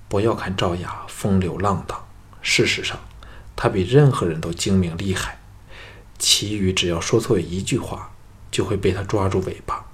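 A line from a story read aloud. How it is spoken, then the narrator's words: Sighing. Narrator (Chinese): 赵牧叹道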